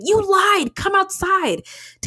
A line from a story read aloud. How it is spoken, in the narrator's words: He shouted